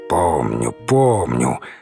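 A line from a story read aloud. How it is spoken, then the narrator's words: Annoyed muttering. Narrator (Russian): с досадой пробормотал Данилов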